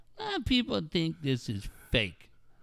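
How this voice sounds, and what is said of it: Mocking nasal voice. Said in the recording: “in your little nasally voice”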